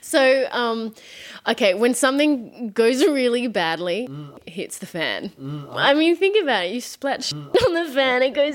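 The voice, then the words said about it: Australian accent drifting toward British. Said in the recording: “my accent's gotten more British ... I want to keep my Australian accent”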